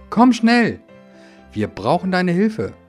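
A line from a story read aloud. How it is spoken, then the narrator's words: Small excavator calling out. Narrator (German): rief der kleine grüne Bagger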